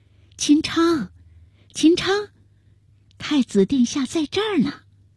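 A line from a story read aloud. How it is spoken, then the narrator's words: Soft hushed call. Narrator (Chinese): 万贞儿向门外小声地喊道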